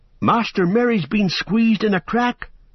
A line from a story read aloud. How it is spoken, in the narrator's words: cried Sam